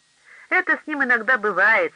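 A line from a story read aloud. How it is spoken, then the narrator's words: Laughing customers. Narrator (Russian): смеясь рассказывали посетители закусочной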